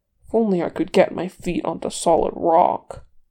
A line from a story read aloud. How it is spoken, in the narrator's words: Gimli grumbled